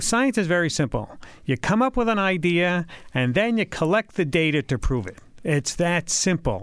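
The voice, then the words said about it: Richard Feynman New York accent impression. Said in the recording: “You're much better at the Richard Feynman accent than I will ever be ... We're both from New York”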